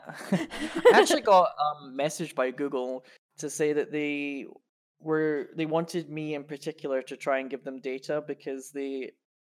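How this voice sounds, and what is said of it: Scottish accent. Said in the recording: “I was Scottish and I lived in Scotland and they wanted people with Scottish accents”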